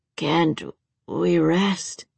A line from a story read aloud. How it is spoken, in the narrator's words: He asked weakly